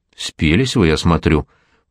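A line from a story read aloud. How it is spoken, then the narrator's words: Grumbling. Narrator (Russian): проворчал Жора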